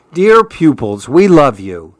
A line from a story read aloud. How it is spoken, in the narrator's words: the animals exclaim